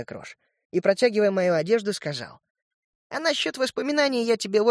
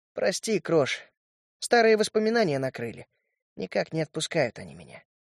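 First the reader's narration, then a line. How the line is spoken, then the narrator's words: Heavy-sighing reply. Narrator (Russian): Тяжело вздохнул и ответил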